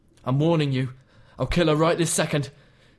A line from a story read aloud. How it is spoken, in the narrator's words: he yelled